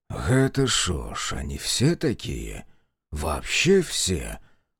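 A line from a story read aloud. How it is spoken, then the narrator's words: Confused mutter. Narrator (Russian): Растерянно пробормотал знаток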